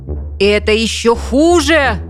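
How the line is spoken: Shouted. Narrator (Russian): закричал он

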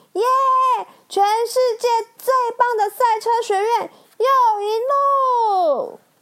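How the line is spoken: Excited shout. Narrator (Chinese): 他振奋的大喊

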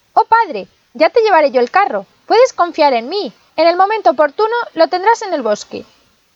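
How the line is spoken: Exclaimed. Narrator (Spanish): Pulgarcito exclamó

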